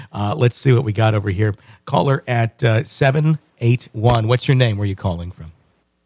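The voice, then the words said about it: Sick, rough-sounding voice. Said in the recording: “I still have bronchitis, so that's why my voice sounds like crap.”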